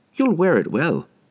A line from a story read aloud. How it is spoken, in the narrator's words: she said cheerfully